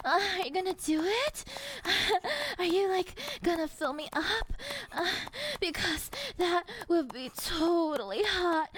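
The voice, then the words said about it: Ditzy valley girl voice. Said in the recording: “valley girl ... a cute ditzy accent and a cute ditzy voice”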